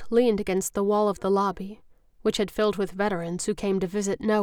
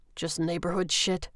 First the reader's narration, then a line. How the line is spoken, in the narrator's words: he grumbled